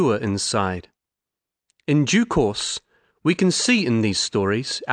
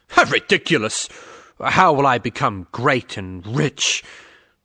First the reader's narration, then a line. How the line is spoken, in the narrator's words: His friend scoffed